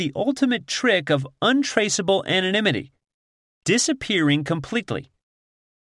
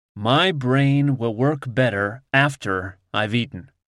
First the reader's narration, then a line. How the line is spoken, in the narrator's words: he says slowly